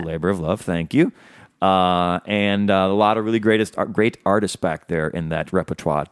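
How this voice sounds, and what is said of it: Deep, sexy radio voice. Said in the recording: “you've got your deep, sexy voice on ... Radio voice.”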